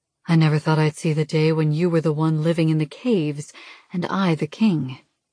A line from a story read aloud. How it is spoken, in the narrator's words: he says smoothly